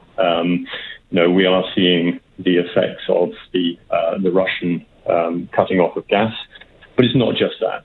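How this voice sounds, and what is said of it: British accent. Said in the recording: “you can probably tell from my accent, I'm, I'm British”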